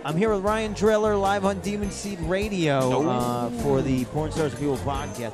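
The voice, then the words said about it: Radio announcer voice. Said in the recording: “I broke into my radio voice guy”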